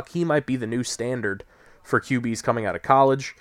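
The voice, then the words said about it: Slightly odd, cold-affected voice. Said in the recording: “my voice sounds a little odd. I'm coming down with a little bit of a cold”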